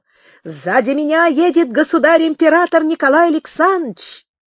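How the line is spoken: Shouted. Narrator (Russian): То кричал полицмейстер Михаил Апула

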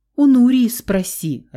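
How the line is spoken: Irritated. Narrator (Russian): раздраженно ответил Давид

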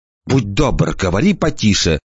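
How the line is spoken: Hissed. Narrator (Russian): прошипела

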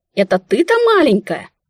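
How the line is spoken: Exclamation. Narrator (Russian): воскликнула я

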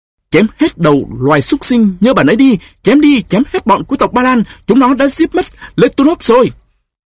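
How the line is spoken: Battle scream. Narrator (Vietnamese): Anh lao sâu vào lòng cơn xung sát, thét lên

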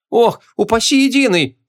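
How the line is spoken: Innkeeper howling. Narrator (Russian): взвыл корчмарь

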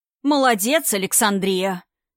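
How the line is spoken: Exaggerated cartoonish laugh. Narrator (Russian): Дед Мороз нарочито по-мультяшному похохотал

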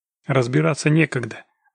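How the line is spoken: Curt, clipped. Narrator (Russian): отрывисто бросил Локис

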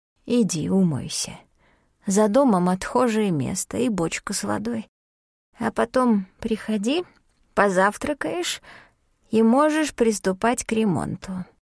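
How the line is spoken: Quiet. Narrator (Russian): тихо сказала

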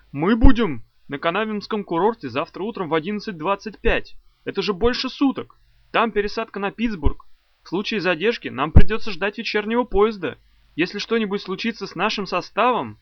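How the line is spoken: Sudden shout. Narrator (Russian): Вдруг он опять закричал

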